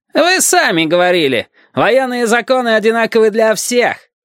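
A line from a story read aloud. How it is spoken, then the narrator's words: Loud reply, lieutenant. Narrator (Russian): громко отозвался лейтенант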